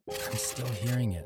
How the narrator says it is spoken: I whispered to the AD

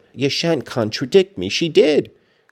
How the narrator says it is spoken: cried my young lady

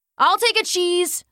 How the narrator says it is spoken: shouted Devin behind her

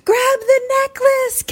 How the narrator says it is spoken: Kat yells

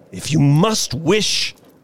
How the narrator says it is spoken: he said gruffly

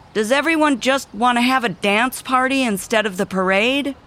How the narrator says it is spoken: She shouted to the crowd

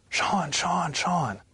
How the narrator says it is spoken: came running and screaming my name

